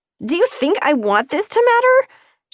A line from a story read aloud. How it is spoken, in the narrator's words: she yelled